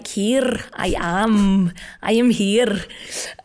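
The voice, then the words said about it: Put-on Scottish accent. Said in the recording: “a Scottish person would be like ... four more accents that I know in of British accents”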